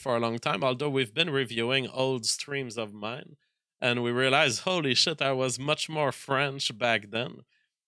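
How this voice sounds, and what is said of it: Strong French accent. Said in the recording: “I like your accent, sir... I still have a major accent... really a Frenchman who doesn't know much English”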